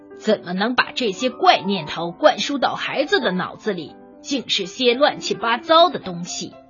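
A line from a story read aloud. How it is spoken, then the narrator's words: Irritable grumpy man. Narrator (Chinese): 他 脾气暴躁，说起话来像极了白天那个头戴宽边帽子的顾问官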